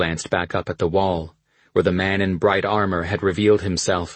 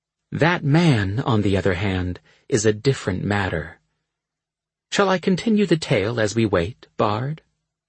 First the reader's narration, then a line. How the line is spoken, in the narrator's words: calmly resuming her story, even as fire and fear were all around us